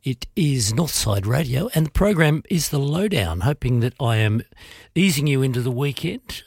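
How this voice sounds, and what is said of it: Voice affected by a cold. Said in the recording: “You can probably hear from my voice, I'm recovering from a cold.”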